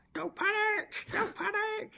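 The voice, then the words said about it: Imitates another person's voice. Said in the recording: “my impressions ... my impression of Jonesy”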